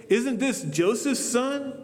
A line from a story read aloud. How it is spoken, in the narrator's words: they asked